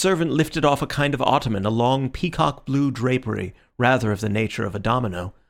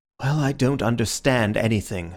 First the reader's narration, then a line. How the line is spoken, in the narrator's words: said Syme, sighing